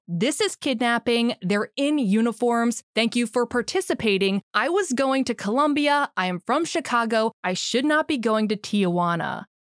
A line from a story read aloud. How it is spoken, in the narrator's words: you can hear Sergio yell